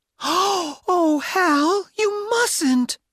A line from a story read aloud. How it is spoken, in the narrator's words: cried